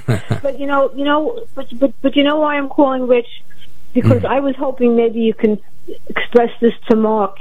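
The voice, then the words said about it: Brooklyn accent. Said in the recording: “I remember your voice. Sounds like you're from Brooklyn.”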